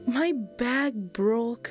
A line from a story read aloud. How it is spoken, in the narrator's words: Kian replied sadly